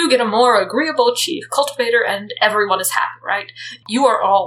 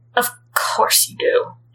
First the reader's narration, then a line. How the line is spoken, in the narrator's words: Zhou Chang says bitterly